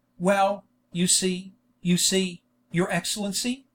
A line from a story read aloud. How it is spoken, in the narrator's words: stammered out the Jew